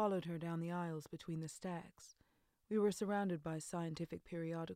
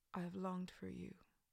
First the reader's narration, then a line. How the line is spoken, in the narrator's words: murmured